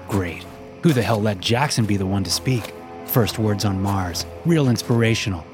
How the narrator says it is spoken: Cameron said sarcastically

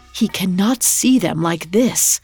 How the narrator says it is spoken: her whisper frantically

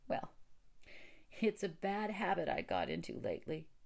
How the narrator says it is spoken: said Theodora, trying to laugh

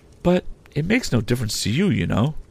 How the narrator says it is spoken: said Biddy calmly

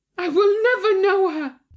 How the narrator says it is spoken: cried Thyra furiously

